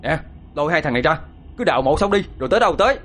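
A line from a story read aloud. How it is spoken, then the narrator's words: Shouting. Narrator (Vietnamese): Hai Phong quát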